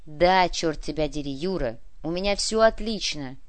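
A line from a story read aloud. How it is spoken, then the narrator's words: Growling. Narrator (Russian): прорычал Куприянов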